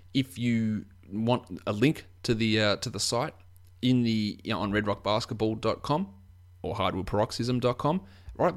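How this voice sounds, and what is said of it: Australian accent. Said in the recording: “my Australian accent's a little bit hard for you to understand”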